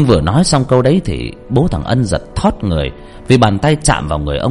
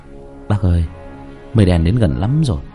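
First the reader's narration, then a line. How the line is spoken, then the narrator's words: Quiet. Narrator (Vietnamese): Bố thằng Ân nhỏ giọng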